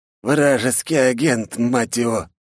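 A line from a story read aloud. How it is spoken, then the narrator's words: Hiss through teeth. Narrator (Russian): стиснув зубы, прошипел Лу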